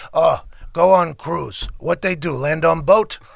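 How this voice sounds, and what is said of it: Imitating Janikowski's accent. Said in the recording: “Janikowski ... he's got like an accent.”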